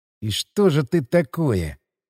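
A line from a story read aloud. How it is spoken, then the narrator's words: Muttering. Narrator (Russian): пробормотал я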